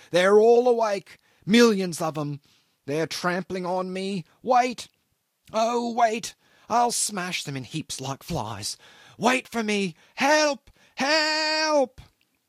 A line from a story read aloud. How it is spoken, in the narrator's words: An interminable and sustained howl